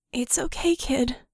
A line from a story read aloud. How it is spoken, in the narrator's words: Vickie croaked